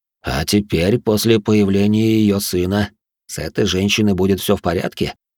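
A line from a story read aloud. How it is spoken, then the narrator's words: Plain. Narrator (Russian): спросил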